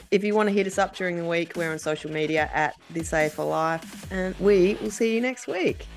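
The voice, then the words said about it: Strained, failing voice. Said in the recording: “my voice is about to give out”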